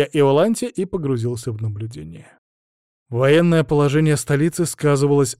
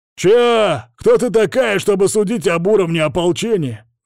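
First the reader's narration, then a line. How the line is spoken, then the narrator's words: Yelled through visor. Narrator (Russian): заорал на меня сквозь мифриловое забрало лидер подошедшего патруля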